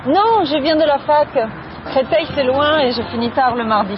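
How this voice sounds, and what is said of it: Slight Italian accent in French. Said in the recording (French): “tu as un léger accent. Tu viens d'où ? ... Je viens d'Italie.”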